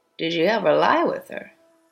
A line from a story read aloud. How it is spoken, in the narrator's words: asked Soames